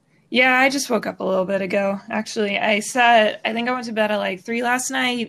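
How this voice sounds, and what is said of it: Sleepy voice. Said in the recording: “You sound sleepy.”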